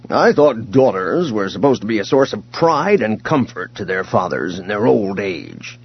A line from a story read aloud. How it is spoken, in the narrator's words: he grumbled